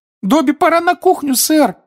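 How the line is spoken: Squeak. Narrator (Russian): пропищал Добби

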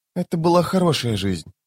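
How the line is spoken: Whisper. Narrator (Russian): прошептала она

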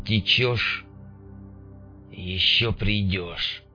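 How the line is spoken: Muttering under breath. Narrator (Russian): пробормотал он себе под нос

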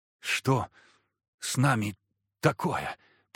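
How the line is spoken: Whisper. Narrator (Russian): прошептала земляна

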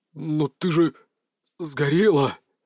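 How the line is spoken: Forced-out stunned word. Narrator (Russian): Арс выдавил из себя это слово

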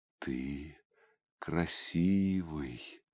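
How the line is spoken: Smiling whisper. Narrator (Russian): прошептала женщина, в первый раз за все это время улыбнувшись

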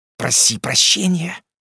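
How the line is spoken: Hissing. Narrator (Russian): прошипела Катя

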